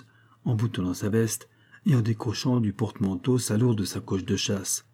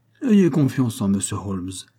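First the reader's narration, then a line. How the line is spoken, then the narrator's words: Pompous policeman. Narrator (French): dit l'agent de police d'un ton pompeux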